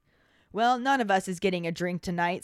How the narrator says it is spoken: said the hag

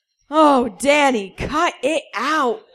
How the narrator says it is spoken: he moaned

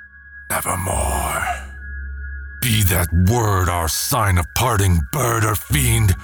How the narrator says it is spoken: shrieked

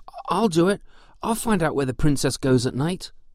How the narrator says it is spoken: called out the young man

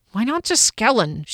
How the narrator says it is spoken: she grumbled

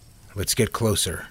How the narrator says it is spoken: Neil said quietly

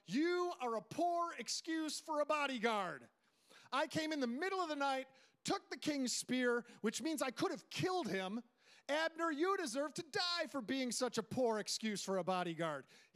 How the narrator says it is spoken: David shouts out

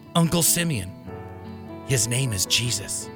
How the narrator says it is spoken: Joseph whispered

